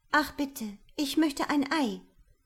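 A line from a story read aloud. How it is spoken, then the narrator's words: Frightened little princess. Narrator (German): sagte die kleine Prinzessin ängstlich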